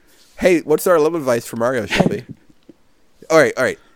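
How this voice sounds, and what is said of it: Usual voice. Nothing is said of it.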